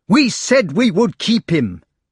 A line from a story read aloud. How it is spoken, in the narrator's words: yelled Gawain